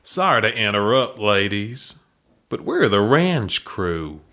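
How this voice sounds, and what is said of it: Deep husky put-on Texan accent. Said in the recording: “a deep, husky, but not unattractive Texan voice ... accent”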